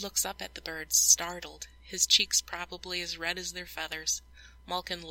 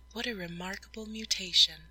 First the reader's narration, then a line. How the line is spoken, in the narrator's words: Natalie murmurs